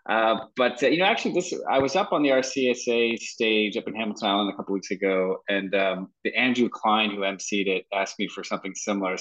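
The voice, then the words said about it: Non-Australian foreign accent. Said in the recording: “I'm not from Australia originally. You can probably discern that from the accent.”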